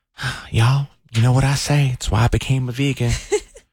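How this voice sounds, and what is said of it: Imitates another person's voice. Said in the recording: “You said you wanted me to do this in my Dallas voice.”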